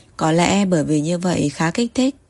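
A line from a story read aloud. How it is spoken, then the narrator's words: Smiling, musing to himself. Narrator (Vietnamese): Thẩm Ngạn mỉm cười … tự hỏi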